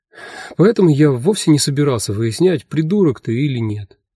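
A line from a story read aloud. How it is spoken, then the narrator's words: Sigh. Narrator (Russian): вздохнул я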